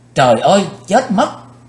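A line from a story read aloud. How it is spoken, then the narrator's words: Panicked scream. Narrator (Vietnamese): Quỳnh Dao nàng chợt hoảng hốt hét lên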